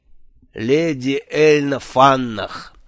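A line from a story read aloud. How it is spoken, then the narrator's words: Knowing drawl. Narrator (Russian): понимающе протянул Джуфин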